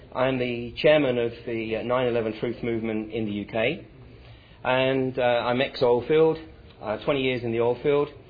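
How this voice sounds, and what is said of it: English accent with American influence. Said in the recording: “Spent a bunch of time living in the US, thus my accent is not pure English”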